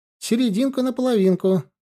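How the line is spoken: Thin voice through static. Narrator (Russian): тонким голоском сквозь шуршание помех ответил

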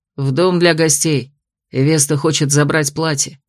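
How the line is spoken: Calm report. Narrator (Russian): сообщил так спокойно

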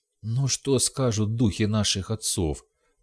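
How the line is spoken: Groaning. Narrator (Russian): простонал Дал

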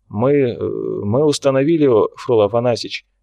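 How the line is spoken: Somewhat uncertain. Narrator (Russian): произнес он несколько неуверенно

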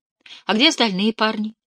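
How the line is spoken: Forced casual tone. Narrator (Russian): Анни попыталась произнести эти слова обычным тоном

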